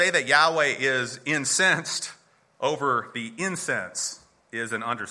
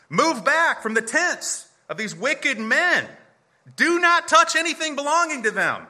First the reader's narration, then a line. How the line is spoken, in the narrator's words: He warned the assembly, yelling